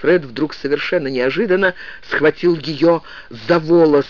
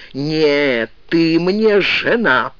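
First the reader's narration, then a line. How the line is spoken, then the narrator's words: Hiss. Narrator (Russian): прошипел он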